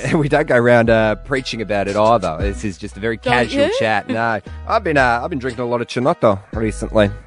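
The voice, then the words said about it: Put-on Italian accent. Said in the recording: “You just put on an Italian accent.”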